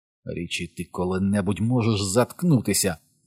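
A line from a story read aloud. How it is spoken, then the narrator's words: Hiss. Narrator (Ukrainian): прошипів Едді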